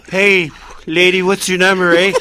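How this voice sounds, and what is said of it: Canadian hoser character voice. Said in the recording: “That was his great impression ... Bob. Bob McKenzie. ... Hosers. The original Hosers.”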